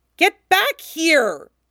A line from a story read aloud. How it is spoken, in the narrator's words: howls, fighting